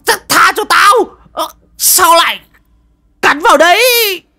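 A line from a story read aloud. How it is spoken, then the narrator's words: Yelping in pain. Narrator (Vietnamese): Lão Mò rú lên oai oái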